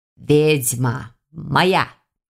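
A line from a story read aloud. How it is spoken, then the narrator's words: Possessive growl, snow leopard. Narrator (Russian): Снова заявил на меня права снежный барс, недвусмысленно рыкнув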